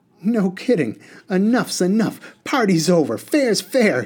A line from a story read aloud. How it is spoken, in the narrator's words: he snapped